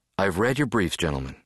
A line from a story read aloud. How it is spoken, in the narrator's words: she said